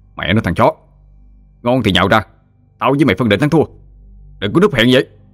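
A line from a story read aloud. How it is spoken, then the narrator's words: Irritated shout. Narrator (Vietnamese): Anh bực dọc quát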